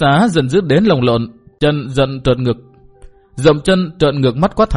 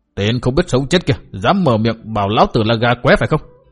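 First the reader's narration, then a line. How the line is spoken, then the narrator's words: Furious yelling. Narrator (Vietnamese): Túc Xá giận dữ như khùng, quát tháo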